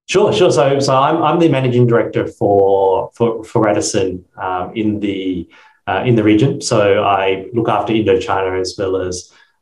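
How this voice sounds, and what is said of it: Australian accent. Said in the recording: “Your accent gives you away as an Australian, though, it sounds like.”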